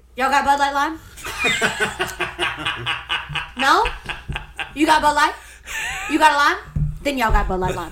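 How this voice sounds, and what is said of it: Put-on Southern Appalachian accent. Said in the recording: “I'm gonna put on my South Carolina Appalachian Southern accent”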